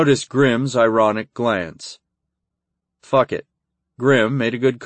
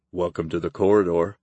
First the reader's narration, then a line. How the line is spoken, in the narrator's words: Grim muttered